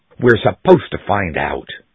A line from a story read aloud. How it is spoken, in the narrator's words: snapped Anglesey